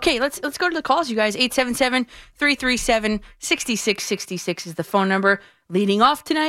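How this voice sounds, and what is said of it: Usual voice. Nothing is said of it.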